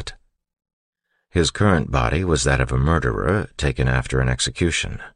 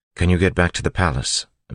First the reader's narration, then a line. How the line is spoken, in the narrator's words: Vin asked